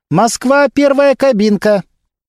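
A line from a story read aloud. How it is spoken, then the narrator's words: Young woman calling out. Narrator (Russian): девушка-оператор выкрикнула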